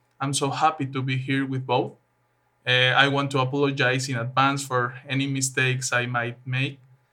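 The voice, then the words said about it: Strong non-native accent. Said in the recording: “My accent is terrible, my pronunciation too.”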